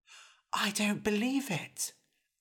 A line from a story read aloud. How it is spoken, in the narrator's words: Eric whispered back